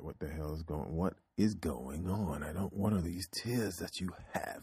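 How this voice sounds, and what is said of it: Put-on British accent. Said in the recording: “turn into Data, Star Trek ... Data did not have a British accent, but damn it. I do right now.”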